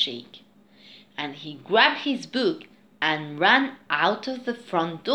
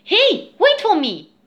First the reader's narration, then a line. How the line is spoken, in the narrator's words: shouted Louise